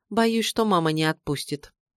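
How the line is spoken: Glum, dejected. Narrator (Russian): Припертая, как говорится, к стене, я уныло произнесла

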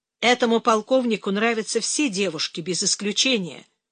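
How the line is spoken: Dry remark. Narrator (Russian): сухо заметила Оксана

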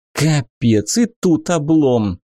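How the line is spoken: Sighing female ruler. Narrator (Russian): вздохнула повелительница

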